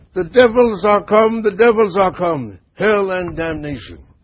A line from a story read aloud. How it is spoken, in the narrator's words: Another one, Volney, cried